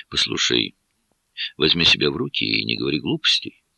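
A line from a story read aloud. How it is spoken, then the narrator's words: Gentle, soothing. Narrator (Russian): ласково сказал я, пытаясь ее успокоить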